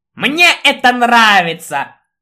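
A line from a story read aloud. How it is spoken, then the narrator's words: Maliciously triumphant. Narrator (Russian): злобно торжествующе сплеснул он руками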